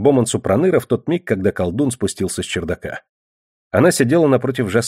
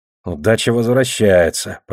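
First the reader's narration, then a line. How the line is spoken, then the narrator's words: Grumbling. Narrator (Russian): проворчал Такар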